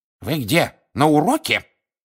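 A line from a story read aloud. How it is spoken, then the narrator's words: Professor's sharp rebuke. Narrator (Russian): прикрикнула профессор Грабли Дёрк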